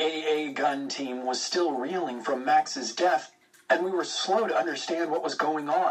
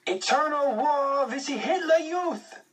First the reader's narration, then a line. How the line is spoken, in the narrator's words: the Edelweiss pirates screaming